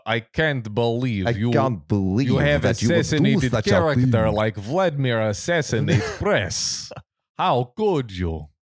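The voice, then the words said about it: Put-on Russian accent. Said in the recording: “I'm imagining this in a Russian accent.”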